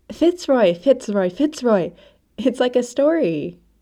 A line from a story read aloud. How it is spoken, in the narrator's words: she cries